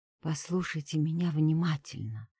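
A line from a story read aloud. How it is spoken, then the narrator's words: Quiet but very distinct. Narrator (Russian): сказала я тихо, но очень отчетливо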